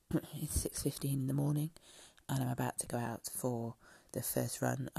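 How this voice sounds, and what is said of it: Speaking very quietly. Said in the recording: “I'm talking very quietly.”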